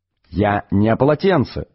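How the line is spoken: Plain. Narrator (Russian): сказал Артур

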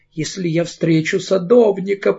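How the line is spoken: Moaning. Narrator (Russian): простонала она

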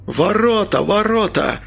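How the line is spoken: Hoarse call from above. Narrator (Russian): захрипел с вышки Антон

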